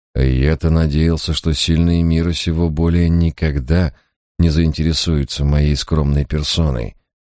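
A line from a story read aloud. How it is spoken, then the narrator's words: Sighed. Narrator (Russian): вздохнул я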